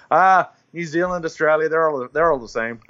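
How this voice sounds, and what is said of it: Bad put-on American Texan accent. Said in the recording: “I'm going to do a bad American accent ... Texas or something ... wherever my accent is trying to come from”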